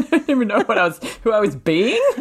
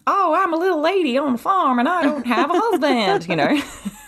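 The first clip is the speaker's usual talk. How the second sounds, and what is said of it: Exaggerated Southern country cowgirl accent. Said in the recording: “What accent was that? ... It was like Blanche from the Golden Girls crossed with Beverly Hillbillies. ... you sound like Jessie from Toy Story.”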